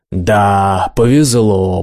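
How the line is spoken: Drawn out. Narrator (Russian): протянул я

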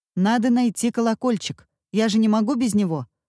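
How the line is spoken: Stern. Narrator (Russian): строго сказал Вася

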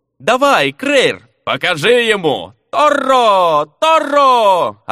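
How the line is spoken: Crowd yelling. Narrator (Russian): орали зеваки

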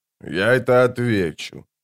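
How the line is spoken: Quiet. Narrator (Russian): тихо сказал он

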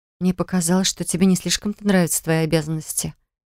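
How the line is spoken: Quiet young woman. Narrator (Russian): тихо произнесла девушка

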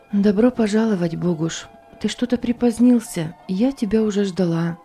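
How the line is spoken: Quiet speech. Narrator (Russian): тихо произнесла

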